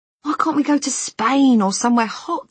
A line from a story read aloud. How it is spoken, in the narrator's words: he'd mutter